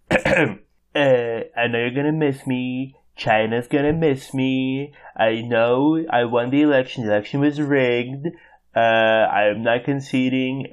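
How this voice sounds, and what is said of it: Imitates another person's voice. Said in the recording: “I will no longer be doing Trump impersonations ... I'm gonna give you one last time”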